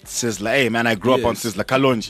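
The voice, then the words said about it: Slips into Jamaican accent. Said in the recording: “even the accent changed. Kalonji. I sounded Jamaican.”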